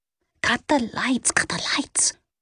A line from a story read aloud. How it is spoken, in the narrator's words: Nance whispered sharply